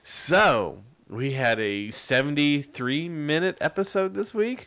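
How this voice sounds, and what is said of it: Usual voice. Nothing is said of it.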